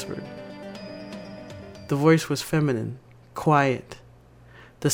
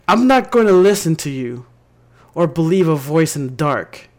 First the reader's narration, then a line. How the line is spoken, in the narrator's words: I screamed